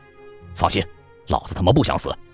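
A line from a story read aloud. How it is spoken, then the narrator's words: Stern, sharp. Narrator (Chinese): 我便厉声说道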